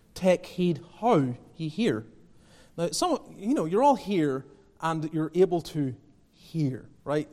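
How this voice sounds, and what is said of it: Speaks with a noticeable accent. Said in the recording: “despite my accent”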